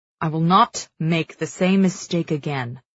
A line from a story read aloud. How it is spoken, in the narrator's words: the king growls into her face